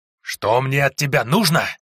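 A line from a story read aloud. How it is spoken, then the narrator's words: Monster's hiss. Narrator (Russian): прошипел монстр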